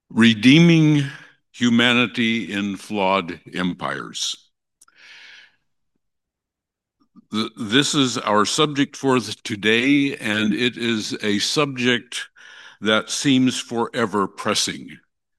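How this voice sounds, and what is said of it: Speaks with a noticeable accent. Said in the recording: “the sound of my accent”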